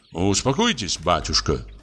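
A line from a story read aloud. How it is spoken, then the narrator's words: Plain. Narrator (Russian): сказал Кунин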